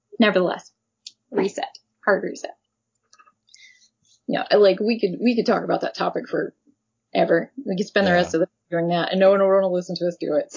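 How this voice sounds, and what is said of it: Hoarse, froggy, failing voice. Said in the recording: “I'm losing my voice. ... You're going to have to cut out all my frogginess.”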